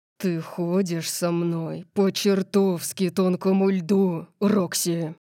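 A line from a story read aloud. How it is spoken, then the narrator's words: Growled. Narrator (Russian): прорычал он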